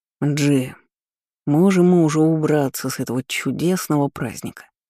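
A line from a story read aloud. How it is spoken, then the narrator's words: Sullen grumble. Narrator (Russian): хмуро проворчал Ламбикор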